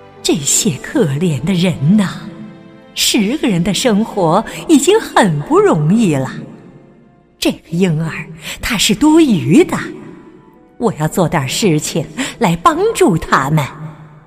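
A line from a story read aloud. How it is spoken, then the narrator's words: Inner lament. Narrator (Chinese): 猫头鹰在心里感叹着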